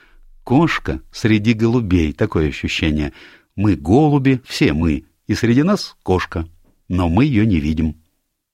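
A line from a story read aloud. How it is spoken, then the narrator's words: Laughing. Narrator (Russian): рассмеялась и сказала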